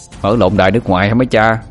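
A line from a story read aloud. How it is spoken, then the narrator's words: Scoffing laugh. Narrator (Vietnamese): xin cười khẩy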